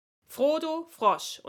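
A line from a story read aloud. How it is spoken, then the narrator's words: Stern interruption. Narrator (German): unterbrach ihn streng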